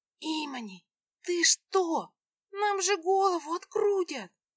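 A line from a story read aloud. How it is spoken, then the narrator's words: Hissing. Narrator (Russian): зашипела моя подруга Эсмира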